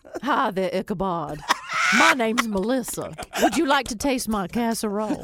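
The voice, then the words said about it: Put-on raspy middle-aged Southern woman accent. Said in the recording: “every time I do any kind of accent, she's been smoking and she's middle aged and she's ... White.”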